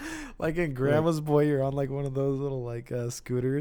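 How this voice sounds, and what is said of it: Usual voice. Nothing is said of it.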